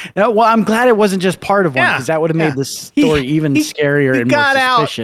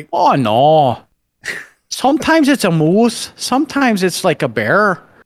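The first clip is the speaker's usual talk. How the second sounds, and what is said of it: Poor put-on Canadian accent. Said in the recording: “That's a terrible Canadian accent. I'm sorry.”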